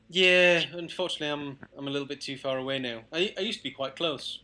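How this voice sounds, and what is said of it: Speaks with a regional accent. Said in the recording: “as you can probably tell from the accent.”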